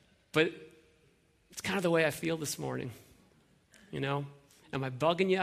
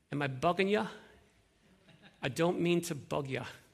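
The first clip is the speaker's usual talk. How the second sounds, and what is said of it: Put-on Dublin Irish accent. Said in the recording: “in his Dublin accents, he says this ... I'm not very good at that accent.”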